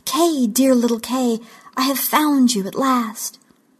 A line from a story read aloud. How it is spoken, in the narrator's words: she exclaimed